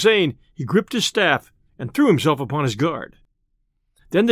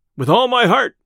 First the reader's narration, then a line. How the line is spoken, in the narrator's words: cried merry Robin